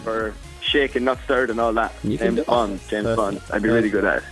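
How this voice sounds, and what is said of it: Strong Irish accent. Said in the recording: “this really Irish accent... The really Irish accent.”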